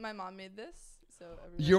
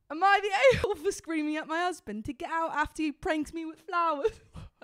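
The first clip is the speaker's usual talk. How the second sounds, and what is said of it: Attempted British accent. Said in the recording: “it has to be a whole British accent ... It might not be great ... I'm trying to get my British accent ... I do it better. I have to warm up to it.”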